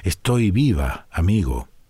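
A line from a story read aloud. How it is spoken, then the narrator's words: Barely audible voice. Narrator (Spanish): La muerte le contestó con una voz apenas perceptible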